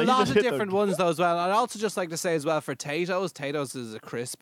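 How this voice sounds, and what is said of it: Usual voice. Nothing is said of it.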